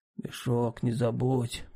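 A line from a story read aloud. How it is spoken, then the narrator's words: Hoarse wheeze. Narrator (Russian): прохрипел он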